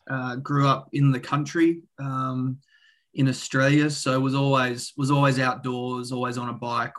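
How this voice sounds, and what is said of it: Australian accent. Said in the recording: “I'm Australian, as you might be able to tell from the accent.”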